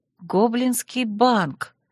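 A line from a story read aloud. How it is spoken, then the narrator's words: Mutter. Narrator (Russian): пробормотала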